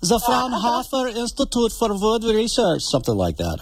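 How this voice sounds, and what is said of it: Put-on German accent. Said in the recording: “you got to use a German accent when you do that.”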